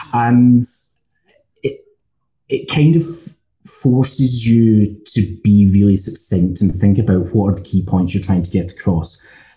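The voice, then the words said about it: Scottish accent. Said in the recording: “my accent, I'm Scottish.”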